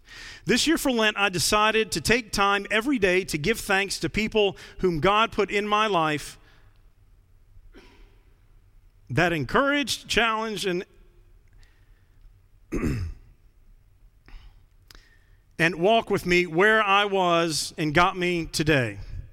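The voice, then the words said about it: Choked-up, emotional voice while reading. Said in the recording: “a little choked up.”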